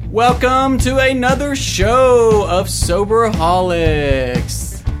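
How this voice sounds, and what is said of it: Announcer voice. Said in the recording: “It's my announcer voice. ... It sounds really good.”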